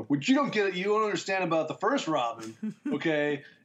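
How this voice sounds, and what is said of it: Mock drunken rambling voice. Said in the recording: “my impression of myself when I'm drunk”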